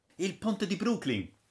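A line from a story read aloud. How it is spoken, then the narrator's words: Exclamation. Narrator (Italian): esclamò Braddock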